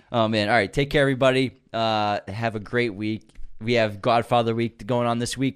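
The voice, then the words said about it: Strained, fading voice. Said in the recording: “Losing my voice from laughing so much”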